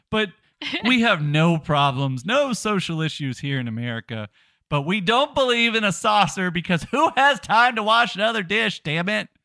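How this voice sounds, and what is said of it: Mock Northerner voice. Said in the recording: “I'm imitating the North here.”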